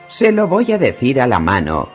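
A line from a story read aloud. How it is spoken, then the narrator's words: Roared. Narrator (Spanish): rugió la septa Mordane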